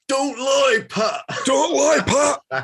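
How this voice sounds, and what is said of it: Impression of Steve Northwick. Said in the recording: “my favourite impression of Steve Northwick”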